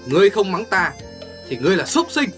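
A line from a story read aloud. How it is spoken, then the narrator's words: Roar. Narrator (Vietnamese): Hồ Thiết Hoa gầm lên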